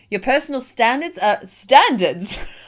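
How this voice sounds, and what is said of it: Sudden posh accent. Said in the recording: “Don't know where that accent came from. It got all posh all of a sudden.”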